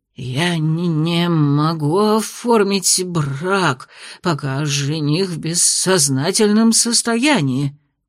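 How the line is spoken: Stammering mumbling judge. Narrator (Russian): заикаясь, промямлил судья

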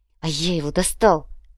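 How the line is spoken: Feverish whisper. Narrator (Russian): лихорадочно шептал юноша

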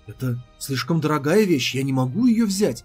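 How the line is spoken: Hasty exclamation. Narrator (Russian): Поспешно воскликнула Цзиюнь

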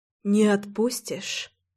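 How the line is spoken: Quiet, humbled whisper. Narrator (Russian): Тихо, позабыв о гордости, прошептала я

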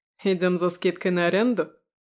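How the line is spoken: Knowing snort. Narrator (Russian): хмыкнул Витя, прекрасно зная мои методы работы

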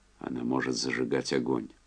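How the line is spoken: Quiet. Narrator (Russian): Энди сказал негромко

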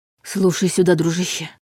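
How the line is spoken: Heartfelt whisper. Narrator (Russian): проникновенным шепотом сказал Дементьев

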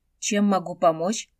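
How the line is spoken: Irritated question. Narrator (Russian): раздраженно поинтересовался Хунсинь

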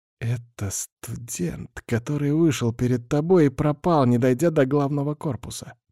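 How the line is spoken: Whisper. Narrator (Russian): прошептал он

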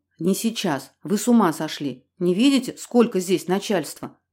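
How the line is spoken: Whispered question. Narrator (Russian): шепотом спросил генерал полиции

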